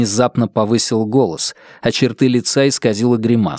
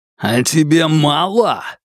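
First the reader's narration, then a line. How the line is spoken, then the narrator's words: Growling. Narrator (Russian): зарычал Ухань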